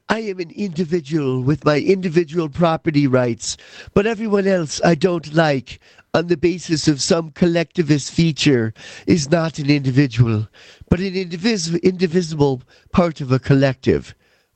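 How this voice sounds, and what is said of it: Imitates another person's voice and accent. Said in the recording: “I could do her, which would be really funny ... I'm not going to do her accent. Maybe I will.”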